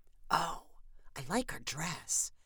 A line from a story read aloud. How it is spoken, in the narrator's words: Candace whispered